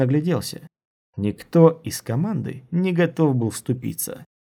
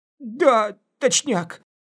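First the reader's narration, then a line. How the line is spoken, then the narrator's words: Strained, barely forced out. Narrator (Russian): Еле выдавил он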